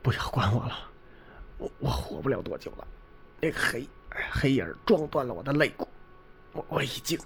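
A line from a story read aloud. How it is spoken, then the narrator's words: Faint, gasping, dying voice. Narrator (Chinese): 那位研究员口鼻窜血，已经气若游丝，喘息着说道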